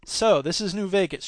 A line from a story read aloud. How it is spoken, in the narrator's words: she said